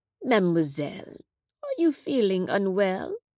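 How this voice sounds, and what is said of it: French accent. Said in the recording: “A French accent rose above the chaos.”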